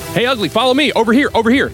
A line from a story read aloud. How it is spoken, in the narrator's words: continue to shout at the creature